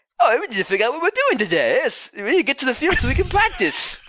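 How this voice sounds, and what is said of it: Stallone doing bad British accent. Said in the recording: “That was Stallone. ... It's so bad. ... Stallone doing a British accent. ... almost close to the South Park character Butters with a bad Cockney accent. It's ridiculous.”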